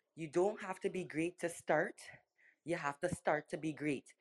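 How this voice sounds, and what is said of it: Put-on Trinidadian accent. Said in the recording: “I have to put in his Trinidadian accent. It gives a little bit more, you know, oomph to it.”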